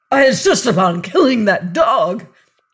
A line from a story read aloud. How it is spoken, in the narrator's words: cried Todd